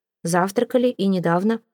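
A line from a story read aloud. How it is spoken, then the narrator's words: Plain. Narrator (Russian): ответил полковник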